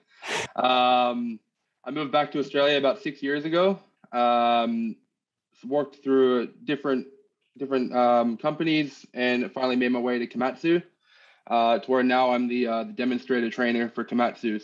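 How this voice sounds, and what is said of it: American accent. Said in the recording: “I lived in the States for 10 years, picked up the accent ... Don't let the accent fool you.”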